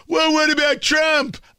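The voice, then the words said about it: Mocking impression of critics' voice. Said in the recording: “I'm assuming that's what they sound like. I don't know. That was my impression.”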